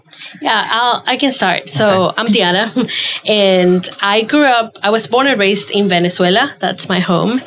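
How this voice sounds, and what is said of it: Slight accent. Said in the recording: “you do have kind of an accent.”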